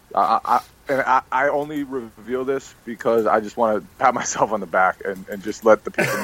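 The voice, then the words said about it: Tired, slightly out-of-it voice. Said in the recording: “I sound a little tired, a little out of it. I have been sick today. I just woke up from a nap.”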